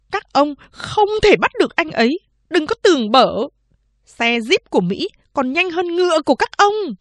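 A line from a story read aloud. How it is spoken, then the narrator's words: Weak shrill hiss. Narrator (Vietnamese): Chị cả Lai Đệ ngồi nhũn ra trên ghế, rít lên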